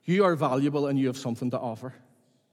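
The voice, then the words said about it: Emotional, choked-up speaking voice. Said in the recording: “if I get emotional ... Give me a minute.”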